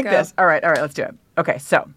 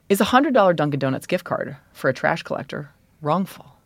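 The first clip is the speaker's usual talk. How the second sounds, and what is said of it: Brett Kavanaugh impression. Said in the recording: “do it in your Brett voice... my Kavanaugh voice”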